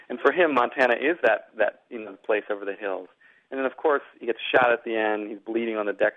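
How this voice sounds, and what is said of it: Usual voice. Nothing is said of it.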